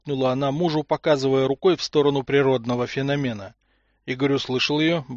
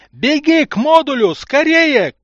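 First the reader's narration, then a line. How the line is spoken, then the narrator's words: Shout. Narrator (Russian): крикнул он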